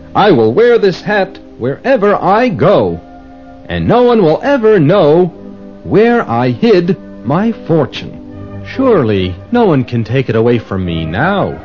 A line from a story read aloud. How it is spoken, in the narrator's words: Yavan said